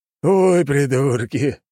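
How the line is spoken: Captain's loud laughter. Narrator (Russian): расхохотался капитан

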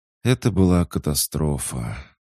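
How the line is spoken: Weary. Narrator (Russian): устало леди Норвес

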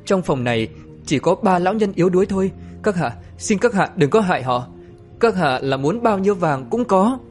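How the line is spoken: Trembling. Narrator (Vietnamese): Tiết Mạn Thụy run rẩy mà nói

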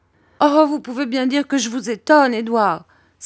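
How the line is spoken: Mother exclaiming. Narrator (French): s'écria ma mère

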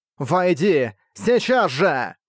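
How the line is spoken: Roar like many wailing women. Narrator (Russian): Проревела она голосом, похожим на стенающие вопли бесчисленного числа женщин

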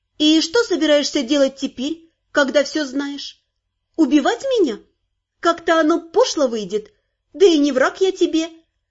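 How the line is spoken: Measured and calm. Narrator (Russian): размеренно и спокойно произнесла моя Дайкая

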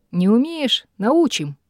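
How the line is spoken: Cheerful promise. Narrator (Russian): бодро пообещал Рой

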